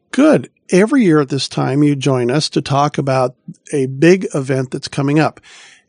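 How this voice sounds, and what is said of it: Voice sounds slightly off, unwell. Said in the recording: “I was almost out ill tonight ... you'll hear my voice is a little bit off. So it's ... secondary voice instead of my primary”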